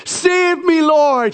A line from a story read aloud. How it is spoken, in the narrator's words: shouted